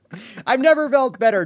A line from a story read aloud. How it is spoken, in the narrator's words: Trump shouted